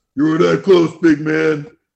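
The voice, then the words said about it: Imitates another person's voice. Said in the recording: “That's a great impression.”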